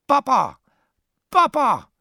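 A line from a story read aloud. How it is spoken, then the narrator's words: Repeated calling out. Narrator (Hungarian): kiáltozott Némó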